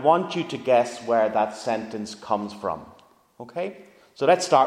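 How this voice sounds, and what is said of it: Usual voice. Nothing is said of it.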